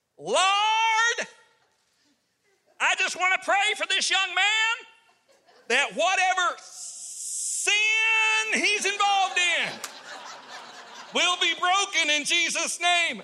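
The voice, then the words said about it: Loud booming preacher voice. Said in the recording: “the loudest deacon I've ever heard in my life ... in a loud voice”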